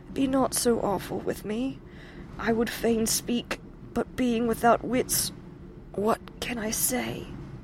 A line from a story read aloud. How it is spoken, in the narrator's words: mumbled the poor, stifled voice